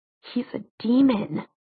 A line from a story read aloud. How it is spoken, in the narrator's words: hissed